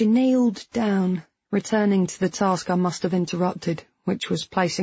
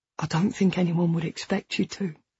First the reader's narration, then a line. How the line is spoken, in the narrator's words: I said softly